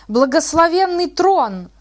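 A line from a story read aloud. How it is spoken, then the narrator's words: Resonant bass shout. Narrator (Russian): Звучным басом закричал дьякон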